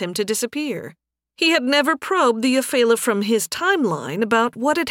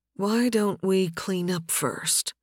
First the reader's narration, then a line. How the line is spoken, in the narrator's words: Nathan whispered in Faye's ear